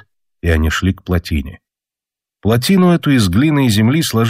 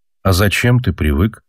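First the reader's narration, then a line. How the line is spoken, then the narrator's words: Plain. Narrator (Russian): спросил его Алеша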